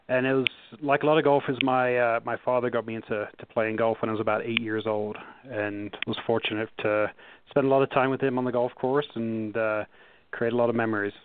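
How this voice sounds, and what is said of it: English accent. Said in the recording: “as you can tell from my accent, I'm not from the U.S. I grew up in Nottingham in England”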